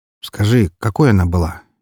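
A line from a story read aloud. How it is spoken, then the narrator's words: Quiet question after silence. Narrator (Russian): негромко спросил я после затянувшейся на несколько минут тишины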